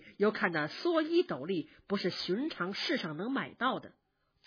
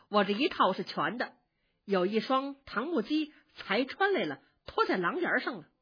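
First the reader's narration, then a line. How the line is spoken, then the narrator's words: Laughing. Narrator (Chinese): 宝玉笑着说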